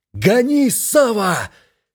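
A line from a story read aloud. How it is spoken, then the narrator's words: Shout. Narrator (Russian): Плато закричал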